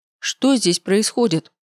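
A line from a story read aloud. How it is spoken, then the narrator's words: Deafening bark. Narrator (Russian): рявкнула я так, что у самой заложила уши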